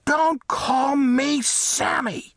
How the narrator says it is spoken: the mole shouted, flying into a rage

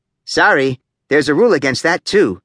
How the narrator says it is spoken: said Beacon Jill

